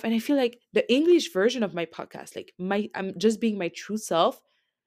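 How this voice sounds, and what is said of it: Accented English speech. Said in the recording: “sorry for the accent and the way I'm speaking”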